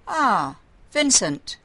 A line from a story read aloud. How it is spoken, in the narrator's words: Jacob called out